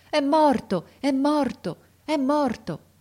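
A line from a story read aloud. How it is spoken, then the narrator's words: Frantic woman's repeated cries. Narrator (Italian): una donna che pareva pazza e gridava di tratto in tratto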